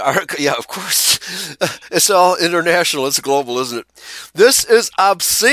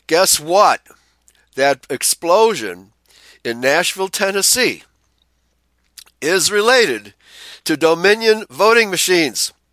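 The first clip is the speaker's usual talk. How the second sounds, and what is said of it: Put-on southern drawl. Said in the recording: “I'm speaking in a southern drawl.”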